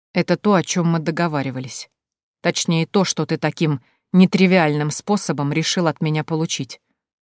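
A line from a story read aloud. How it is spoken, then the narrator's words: Quiet. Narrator (Russian): сказал он негромко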